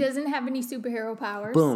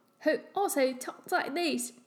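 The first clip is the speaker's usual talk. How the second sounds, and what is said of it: Put-on Cockney accent. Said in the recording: “Cockney accent.”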